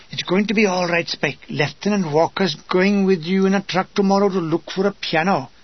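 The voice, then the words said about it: Thick Welsh accent. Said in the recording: “his Welsh accent thick as Brecon Peaks”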